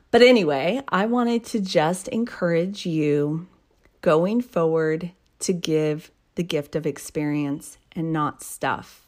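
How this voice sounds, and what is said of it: Sick, rough voice. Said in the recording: “sorry for my voice here. It's just that time of year where all that gunk is going around.”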